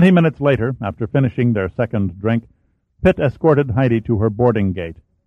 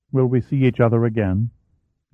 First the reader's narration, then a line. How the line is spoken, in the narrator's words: Her voice became soft